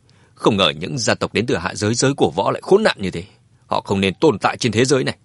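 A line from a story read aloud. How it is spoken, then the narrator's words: Angry speech. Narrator (Vietnamese): Mã Tuần đứng bên cạnh Dương Chấn tức giận nói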